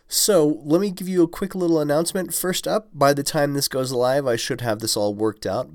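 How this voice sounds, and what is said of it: Congested, slightly funny-sounding voice. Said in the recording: “if my voice sounds a little bit funny, it's probably because I'm at the tail end of a sinus infection”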